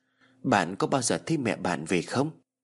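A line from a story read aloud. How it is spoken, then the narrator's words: Sudden soft murmur. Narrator (Vietnamese): Tú Anh chợt thủ thỉ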